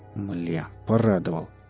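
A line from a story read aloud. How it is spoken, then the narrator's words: Muttering. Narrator (Russian): буркнул Валдис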